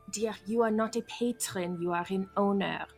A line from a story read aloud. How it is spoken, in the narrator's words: Mina's gonna whisper